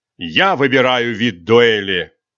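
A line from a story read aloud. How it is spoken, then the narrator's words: Growled. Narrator (Russian): прорычал Рисотто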